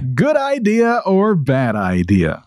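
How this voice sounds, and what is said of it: Perked-up announcer radio voice. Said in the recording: “you kicked it into radio voice gear right there ... did you see me perk up?”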